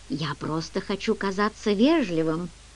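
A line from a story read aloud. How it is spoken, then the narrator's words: Quiet. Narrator (Russian): негромко произнес он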